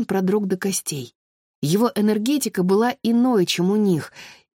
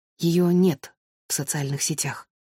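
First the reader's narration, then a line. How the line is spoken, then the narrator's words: Whisper. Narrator (Russian): прошептала Виола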